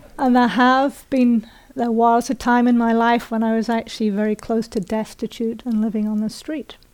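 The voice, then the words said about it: British accent, not upper class. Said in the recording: “people hear a British accent and they assume it's upper class. So just so you know, this is not an upper class British accent.”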